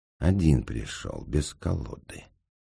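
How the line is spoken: Calm remark. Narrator (Russian): спокойно заметил господин Неймлис

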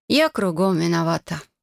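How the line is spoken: Sighing. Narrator (Russian): вздохнула я

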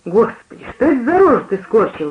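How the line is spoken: Exclaimed. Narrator (Russian): воскликнула мать

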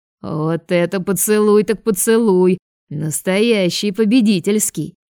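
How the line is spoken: Loud laughing. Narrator (Russian): громко смеялся рыжий

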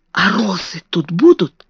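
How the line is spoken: Whisper. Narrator (Russian): шепнула она

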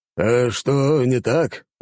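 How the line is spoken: Frowning old man's bass. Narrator (Russian): нахмурившись, пробасил старик

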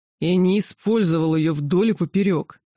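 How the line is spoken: Furious growl. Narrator (Russian): с яростью прорычал кесарь

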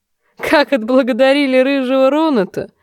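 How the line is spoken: Laughing. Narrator (Russian): засмеялся Хант

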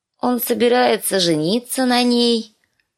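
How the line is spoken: Sleepy child announcing. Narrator (Russian): Сонным голосом объявила кроха Бет

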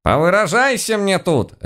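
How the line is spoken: Barked retort. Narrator (Russian): рявкнула в ответ наша тихая домохозяйка

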